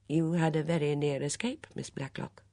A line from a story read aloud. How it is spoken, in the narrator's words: He said quietly